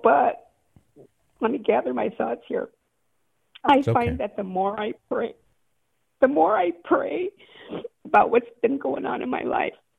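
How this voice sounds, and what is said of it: Emotional, choked-up voice. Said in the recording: “I don't know why I'm getting emotional”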